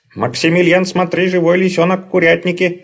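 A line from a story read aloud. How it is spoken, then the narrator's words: Shout. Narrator (Russian): закричал голос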